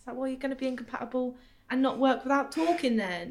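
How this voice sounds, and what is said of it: Essex accent. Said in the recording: “You're slipping into your Essex accent ... has an Essex alter ego that she falls into when she's had a drink. And she was briefly slipping into it now as she was describing.”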